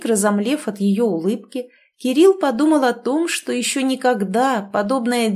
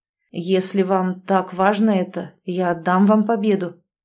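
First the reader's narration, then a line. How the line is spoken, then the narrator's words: Hollow, muffled. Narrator (Russian): глухо вымолвил он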